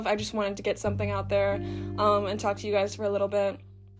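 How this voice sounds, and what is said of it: Hoarse, nearly lost voice. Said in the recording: “my voice is gone. Like, I'm still actively, like, sucking a cough drop”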